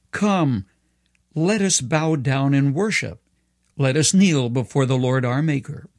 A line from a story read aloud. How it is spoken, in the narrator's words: The psalmist cried out